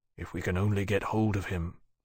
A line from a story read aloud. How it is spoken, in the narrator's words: Lawrence said quietly to Tharke